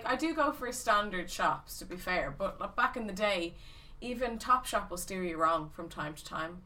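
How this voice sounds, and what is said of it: Strong Irish accent. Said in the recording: “Your accent is so strong... It's like an episode of Father Ted... I still sound Irish”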